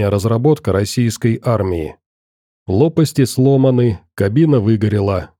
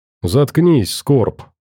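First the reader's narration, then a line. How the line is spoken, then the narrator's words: Grumbling. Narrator (Russian): пробурчал Сайга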